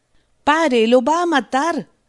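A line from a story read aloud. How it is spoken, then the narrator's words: Shouting. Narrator (Spanish): gritó Rost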